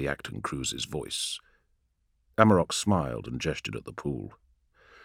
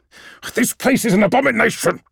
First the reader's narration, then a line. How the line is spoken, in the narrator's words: snarled Lyak